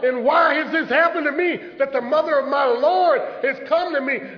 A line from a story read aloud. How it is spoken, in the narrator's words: called out